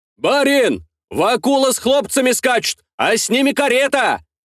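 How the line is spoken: Peasant shouting. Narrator (Russian): прокричал один из мужиков

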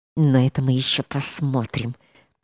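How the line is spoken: Through clenched teeth. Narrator (Russian): проговорила она, наконец, сквозь зубы

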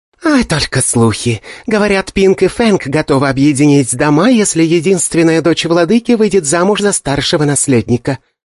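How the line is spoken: Young woman cooing. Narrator (Russian): проворковала девушка

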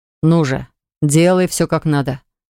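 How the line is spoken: Stern. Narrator (Russian): строго произнес Хакл

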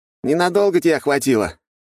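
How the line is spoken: Smirking snort. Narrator (Russian): хмыкнул тощий очкарик

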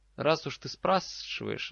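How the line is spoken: Thoughtful drawl. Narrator (Russian): задумчиво протянула Амелия

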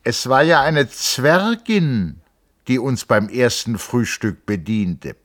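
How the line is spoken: Loud into the silence. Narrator (German): er sagte laut in der Stille

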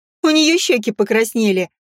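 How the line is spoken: Sister laughing. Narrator (Russian): засмеялась сестрица

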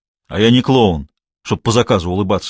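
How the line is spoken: Rude, gruff. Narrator (Russian): грубо ответил Тимохин

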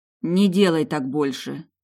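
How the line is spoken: Hoarse plea. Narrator (Russian): хрипло попросила

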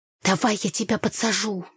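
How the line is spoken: Hissed whisper. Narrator (Russian): зашипела я Танюхе

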